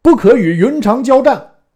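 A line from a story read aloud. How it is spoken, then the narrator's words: Shouting. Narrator (Chinese): 大叫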